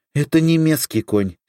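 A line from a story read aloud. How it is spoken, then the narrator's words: Angry commandant. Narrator (Russian): сердито сказал комендант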